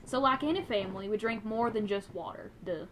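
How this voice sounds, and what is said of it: Put-on Southern accent. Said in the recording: “I'm gonna read this in a southern accent, because this reads southern”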